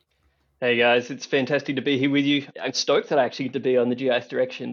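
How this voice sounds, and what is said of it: Slight Australian accent. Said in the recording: “a little bit of an Aussie twang”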